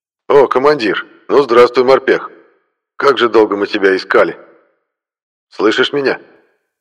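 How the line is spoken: Crackling rough accented male radio. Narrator (Russian): Радиостанция затрещала чьим-то грубым мужским голосом с легким акцентом

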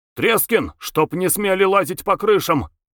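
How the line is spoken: Commanding shout. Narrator (Russian): Чей-то командующий голос крикнул

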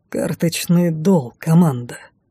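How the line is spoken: Hoarse voice in ear. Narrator (Russian): хриплый голос

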